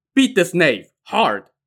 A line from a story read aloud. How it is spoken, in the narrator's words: Prefect Cheng barked to his men